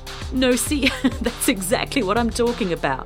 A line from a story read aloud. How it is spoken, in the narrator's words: Ava said, laughing